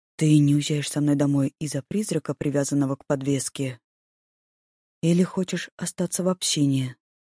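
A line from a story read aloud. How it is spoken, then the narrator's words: Very quiet whisper. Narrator (Russian): Прошептал он совсем тихо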